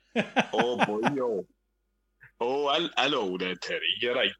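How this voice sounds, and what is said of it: Put-on Welsh accent, slipping from Scouse. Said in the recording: “do that Welsh accent again ... they sound just like that ... the Scouser that turned into a Welsh person”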